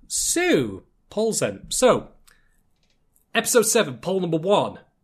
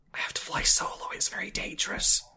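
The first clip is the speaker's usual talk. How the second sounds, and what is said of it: Whispering. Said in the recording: “I'm whispering”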